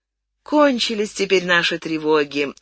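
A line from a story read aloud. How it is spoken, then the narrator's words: Relieved sigh. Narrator (Russian): вздохнули с облегчением меченосец и Акоги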